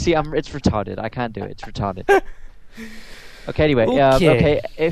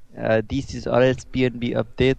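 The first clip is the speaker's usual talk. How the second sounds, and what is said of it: Poor attempt at Russian accent. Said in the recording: “Speak. I'd speak in Russian accent ... I sound stupid. I cannot speak in a Russian accent.”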